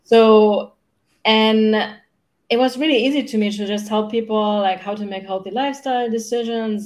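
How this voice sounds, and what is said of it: German accent. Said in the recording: “I grew up in Germany. That's where I'm from, no? in, in case you wonder where my accent is from”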